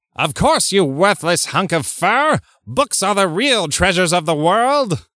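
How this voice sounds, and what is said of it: Skeletor impression. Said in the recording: “I'm going to read them as Skeletor ... I did a Skeletor voice”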